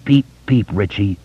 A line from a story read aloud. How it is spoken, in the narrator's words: Ben said through gritted teeth